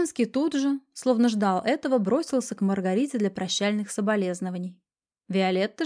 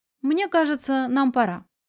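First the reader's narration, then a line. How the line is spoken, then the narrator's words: Curt remark. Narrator (Russian): Виолетта бросила мужу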